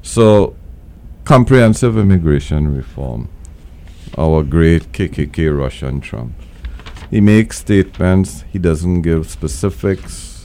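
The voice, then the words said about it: Very deep, sick-sounding voice. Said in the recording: “my voice is very deep and sexy ... because I have the flu.”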